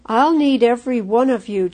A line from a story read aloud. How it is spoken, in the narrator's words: chuckled Father